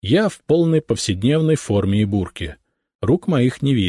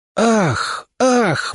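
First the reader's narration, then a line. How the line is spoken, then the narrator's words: Crowd exhaling. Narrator (Russian): выдохнул народ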